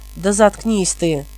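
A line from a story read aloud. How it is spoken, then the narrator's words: Angry. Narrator (Russian): сердито проговорил Хелот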